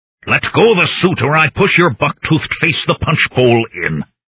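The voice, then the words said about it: Growled thick foreign accent. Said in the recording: “I growled in my thickest Misteldrossian accent.”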